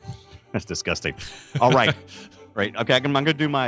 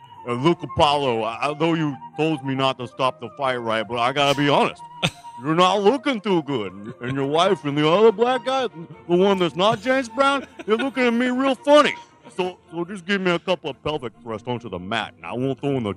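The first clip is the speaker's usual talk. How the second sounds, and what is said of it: Imitates another person's voice. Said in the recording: “my Sylvester Stallone impression ... get into character”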